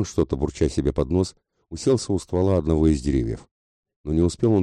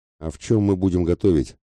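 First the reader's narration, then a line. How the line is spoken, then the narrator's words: Angry mutter. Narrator (Russian): зло буркнула она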